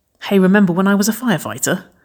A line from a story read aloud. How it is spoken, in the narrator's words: Waverley laughed loudly